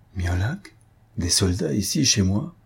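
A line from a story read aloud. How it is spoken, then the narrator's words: Murmuring. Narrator (French): murmura-t-il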